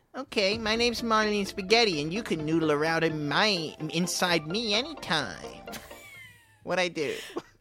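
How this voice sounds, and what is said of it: Baby-like whiny character voice. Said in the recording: “She sounds like a baby. She sounds like a colicky infant.”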